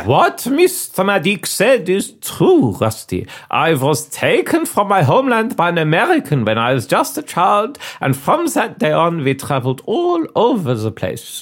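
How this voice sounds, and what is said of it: Put-on mixed foreign accent. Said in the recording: “One year it would be Prussia, the next it would be the Ottoman Empire, both of which I'm sure you can hear in my accent”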